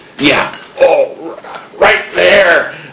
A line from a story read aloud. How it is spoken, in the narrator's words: the security guard moaned